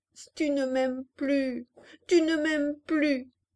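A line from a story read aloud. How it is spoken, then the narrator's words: Bursting into heavy sobs. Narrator (French): Et elle éclata en gros sanglots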